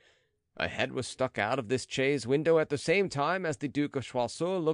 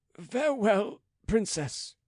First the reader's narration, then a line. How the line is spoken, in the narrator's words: he said in a choking voice